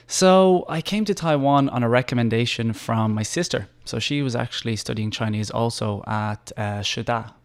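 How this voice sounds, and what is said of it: Mild Irish accent. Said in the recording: “he's got a little bit of an accent there. ... Just a little bit, yeah. Not too strong, but yeah, you can definitely hear it ... I'm from Dublin, Ireland.”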